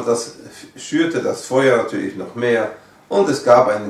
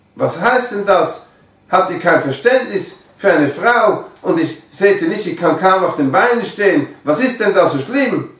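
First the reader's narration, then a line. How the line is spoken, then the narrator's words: Calling back, almost screaming. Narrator (German): Und sie rief zurück, fast schreiend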